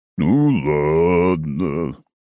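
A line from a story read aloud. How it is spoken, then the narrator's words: Sad drawl. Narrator (Russian): грустно протянул лунный пчел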